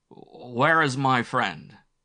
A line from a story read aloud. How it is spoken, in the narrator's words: croaked in miserable French